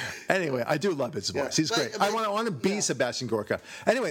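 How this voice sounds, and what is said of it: Usual voice. Nothing is said of it.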